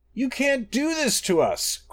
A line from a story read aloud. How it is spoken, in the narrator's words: cried Masser